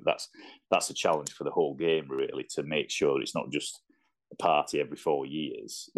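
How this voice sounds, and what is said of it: Yorkshire English accent. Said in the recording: “I do have the Yorkshire accent”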